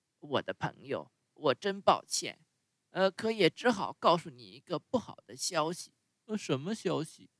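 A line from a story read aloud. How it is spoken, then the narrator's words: Sighing marmot. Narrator (Chinese): 土拨鼠叹着气说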